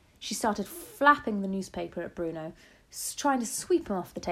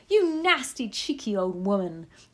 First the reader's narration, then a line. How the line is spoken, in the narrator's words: shouted Mrs